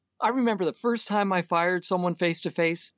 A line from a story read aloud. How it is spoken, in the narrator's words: I cried